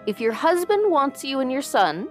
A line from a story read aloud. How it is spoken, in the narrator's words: Jatmund shouted in her face